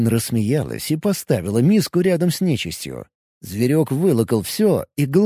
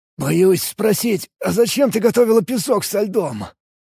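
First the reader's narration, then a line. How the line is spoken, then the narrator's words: Hoarse croak, coughing. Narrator (Russian): прохрипел я, все еще никак не мог прокашляться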